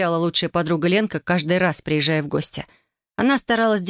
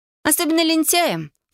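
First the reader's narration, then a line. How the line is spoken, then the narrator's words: Snorting. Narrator (Russian): фыркнула подруга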